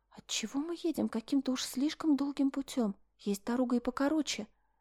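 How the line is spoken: Frowning whisper. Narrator (Russian): нахмурившись, шепнула Мишель

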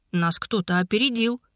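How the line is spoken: Calm. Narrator (Russian): спокойно ответил Игнат

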